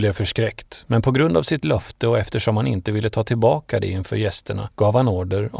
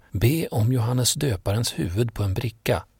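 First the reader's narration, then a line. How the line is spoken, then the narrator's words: Whisper. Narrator (Swedish): Hennes mor viskade då till henne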